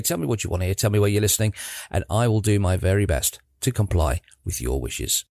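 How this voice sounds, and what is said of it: Croaky, hoarse morning voice. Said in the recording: “I apologise if my voice is a bit croaky this morning”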